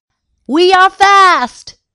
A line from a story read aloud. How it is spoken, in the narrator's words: shouted Sailor Sid